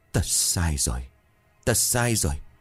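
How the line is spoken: Trembling voice. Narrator (Vietnamese): Ông bá đứng đó miệng run rẩy

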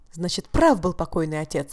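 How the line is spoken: Exclaiming. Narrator (Russian): воскликнул Казима

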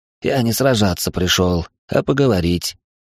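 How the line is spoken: Husky voice. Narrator (Russian): произнес сиплый

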